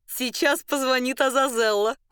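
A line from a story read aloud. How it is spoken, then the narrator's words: Exclamation. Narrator (Russian): воскликнула Маргарита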